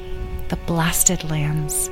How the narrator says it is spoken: said Megan quietly

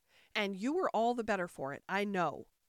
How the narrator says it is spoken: the Queen said triumphantly

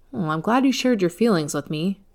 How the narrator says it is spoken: replied

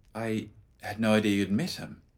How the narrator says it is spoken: Lennox said, anxiously

